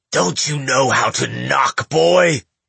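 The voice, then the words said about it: Raspy barking old man's voice. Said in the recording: “he demanded in a raspy bark”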